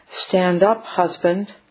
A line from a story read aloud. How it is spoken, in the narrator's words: Dita Mangalika said quietly to him